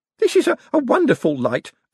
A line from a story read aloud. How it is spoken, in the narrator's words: Alswick exclaimed